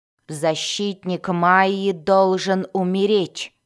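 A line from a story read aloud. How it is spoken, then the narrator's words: Growled. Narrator (Russian): прорычала Бриза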